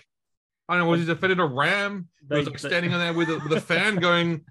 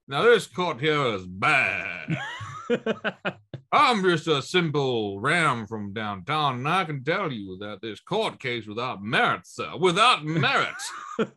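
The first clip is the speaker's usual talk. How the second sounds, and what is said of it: Put-on South Louisiana accent. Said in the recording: “have the accents from people from South Louisiana”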